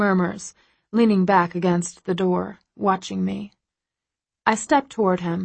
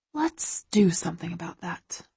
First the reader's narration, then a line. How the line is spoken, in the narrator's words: I whisper